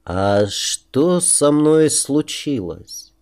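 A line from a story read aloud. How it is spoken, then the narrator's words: Slow, halting question. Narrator (Russian): Медленно подбирая незнакомые мне слова, спросил я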